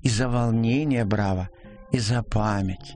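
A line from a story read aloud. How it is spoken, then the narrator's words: Affectionate. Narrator (Russian): Ласково сказала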